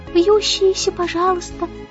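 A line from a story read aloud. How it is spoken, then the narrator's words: Cooing. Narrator (Russian): проворковала Аннабелла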